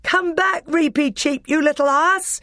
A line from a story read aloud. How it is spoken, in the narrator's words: shouted Peter